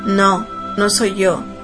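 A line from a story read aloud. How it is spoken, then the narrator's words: Man's breaking voice. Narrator (Spanish): dijo el hombre con la voz quebrada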